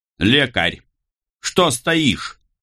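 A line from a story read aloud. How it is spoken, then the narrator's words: Angry shout. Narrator (Russian): зло крикнул монсеньор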